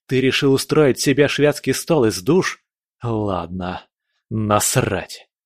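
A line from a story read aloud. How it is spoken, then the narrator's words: Pained growl. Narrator (Russian): Прорычал я, превозмогая боль и сопротивление темной энергии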